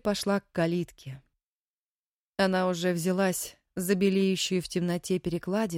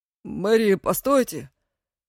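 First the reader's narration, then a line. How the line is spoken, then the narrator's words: Hoarse voice. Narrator (Russian): хриплый голос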